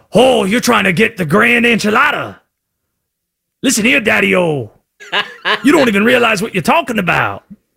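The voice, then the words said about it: Exaggerated Southern accent, John Candy/JFK-like. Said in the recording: “it's got to have a different voice so the audience knows that Conspiracy Josh is talking ... the only accent I can do with any kind of confidence is the Southern accent ... less North Carolina Southern and more John Candy and JFK with shades on”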